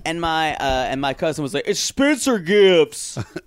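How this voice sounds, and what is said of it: Lower, butch straight-man voice. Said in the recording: “my imitation of every straight man ... It's lower. ... It's pretty butch, actually.”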